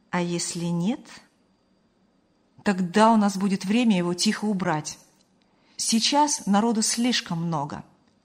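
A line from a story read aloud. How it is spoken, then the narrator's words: Calm. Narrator (Russian): спокойно ответил Ильяс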